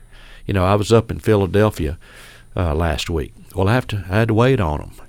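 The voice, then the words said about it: Texas accent. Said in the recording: “they're still hearing this Texas accent”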